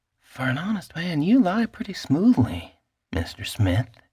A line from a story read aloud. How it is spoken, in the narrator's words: whispered